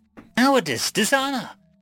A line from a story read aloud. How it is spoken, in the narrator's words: Baal shouting